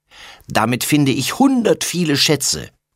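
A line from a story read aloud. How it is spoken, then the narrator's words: Calling. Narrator (German): ruft er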